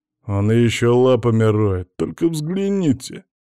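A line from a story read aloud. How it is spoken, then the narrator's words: Deep bass voice. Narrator (Russian): пробасил здоровяк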